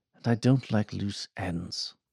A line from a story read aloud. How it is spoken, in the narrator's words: Archie said quietly